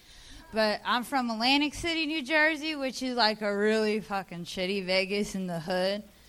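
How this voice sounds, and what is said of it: New Jersey accent. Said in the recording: “in case you can't tell by the accent, I'm from New Jersey”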